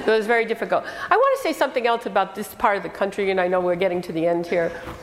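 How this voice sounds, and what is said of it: Speaks with a non-local accent. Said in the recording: “I have an accent. They think I have an accent.”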